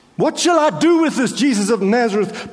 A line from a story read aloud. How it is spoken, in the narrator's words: shouted at the mob